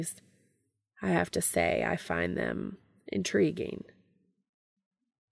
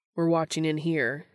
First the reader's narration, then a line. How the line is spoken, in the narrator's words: he says